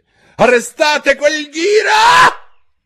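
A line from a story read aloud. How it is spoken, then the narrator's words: Queen shrieking. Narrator (Italian): strillò la regina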